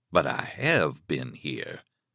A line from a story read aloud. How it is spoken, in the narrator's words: Stark said gravely